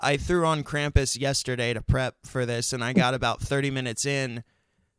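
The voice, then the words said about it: Voice sounds sick with a cold. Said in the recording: “people can probably hear in my voice, I am just now, like, this week getting over being sick with a cold”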